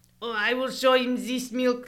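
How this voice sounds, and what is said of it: Bad fake German accent. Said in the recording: “awful fake German accent ... It's worse ... It's really bad”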